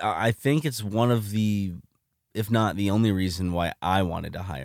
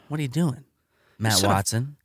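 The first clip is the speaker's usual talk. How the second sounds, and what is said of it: Imitates another person's voice. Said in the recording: “Sound like Chris Hansen. ... does a really good Chris Hansen impression.”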